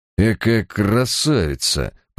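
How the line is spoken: Muttering. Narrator (Russian): пробормотал Барак

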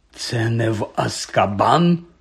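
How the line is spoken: Hoarse question. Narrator (Ukrainian): хрипко запитав Гегрід

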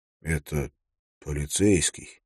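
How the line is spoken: Quiet. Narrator (Russian): тихо сказал он

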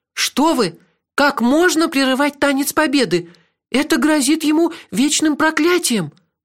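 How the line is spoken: Frightened reply. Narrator (Russian): испуганно ответила Хейлах

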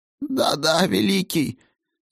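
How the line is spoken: Confused mumbling, sorcerer. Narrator (Russian): сбивчиво бормотал чародей

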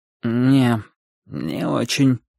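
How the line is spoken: Sleepy. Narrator (Russian): сонно ответил он

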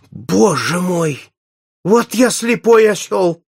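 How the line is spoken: Exclaimed. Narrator (Russian): воскликнул наш клиент

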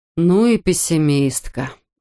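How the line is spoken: Sighing. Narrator (Russian): вздохнул Адам

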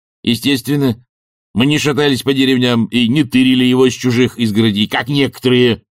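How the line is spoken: Snapping retort. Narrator (Russian): огрызнулся он

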